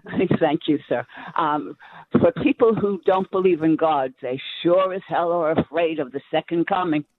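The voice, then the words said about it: New York accent. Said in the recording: “You can hear that New York accent. That is a gal from the East Village.”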